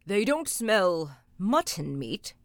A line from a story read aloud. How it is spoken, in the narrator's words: he growled